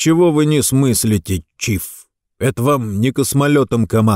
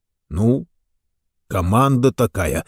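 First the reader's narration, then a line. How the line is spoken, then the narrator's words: Said uncertainly. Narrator (Russian): неуверенно сказал капитан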